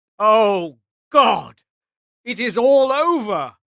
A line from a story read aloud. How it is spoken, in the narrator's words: cried the British Prime Minister when the news finally reached London